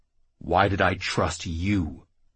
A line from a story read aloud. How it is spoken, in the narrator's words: Jackal growled